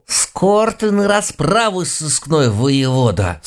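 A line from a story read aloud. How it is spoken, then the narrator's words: Muttered through clenched teeth. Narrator (Russian): Сквозь зубы пробормотала глава нашего экспертного отдела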